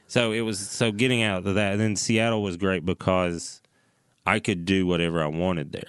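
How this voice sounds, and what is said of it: Southern American accent. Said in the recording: “they thought you were going to be like Jeff Foxworthy ... You just heard my name and my accent”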